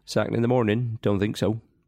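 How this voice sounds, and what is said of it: Ian Holloway impression. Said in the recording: “doing your famous, and it is famous, Ian Holloway impression ... Absolutely perfect ... Absolute perfection.”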